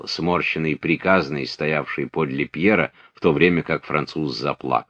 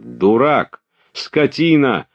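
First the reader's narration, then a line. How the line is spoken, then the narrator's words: Angry scolding shout. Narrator (Russian): закричал Пьер, что редко с ним случалось, ругая своего кучера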